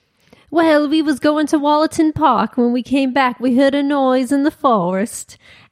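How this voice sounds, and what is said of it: Put-on English accent. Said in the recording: “I won't do an English accent. I was going to for a second and I decided. ... I will.”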